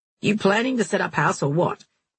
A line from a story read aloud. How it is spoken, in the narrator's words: the driver grumbled